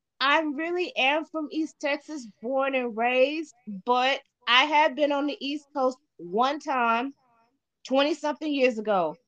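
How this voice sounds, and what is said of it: Slight East Coast New York accent. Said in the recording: “you have a little bit of an East Coast New York accent”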